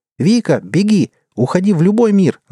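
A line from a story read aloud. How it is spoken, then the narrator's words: Shouting. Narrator (Russian): закричала Линда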